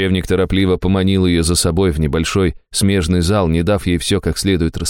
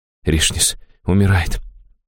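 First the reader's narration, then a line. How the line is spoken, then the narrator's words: Barely audible breath. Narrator (Russian): чуть слышно выдохнула чародейка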